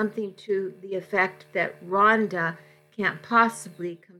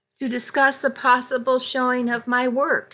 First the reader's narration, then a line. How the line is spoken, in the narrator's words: she exclaimed